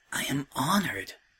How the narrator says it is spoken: Twilight whispered, half to himself and half to any listening gods

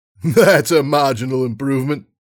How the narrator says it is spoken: Flair laughed

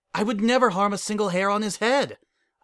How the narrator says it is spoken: I exclaim

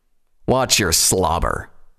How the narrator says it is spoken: Tirado growled in return

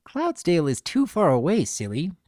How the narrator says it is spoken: Pinkie giggled

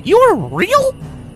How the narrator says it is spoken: Twilight sputtered

